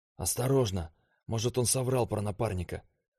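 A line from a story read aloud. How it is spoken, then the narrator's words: Whispered, young man. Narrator (Russian): шепнул парень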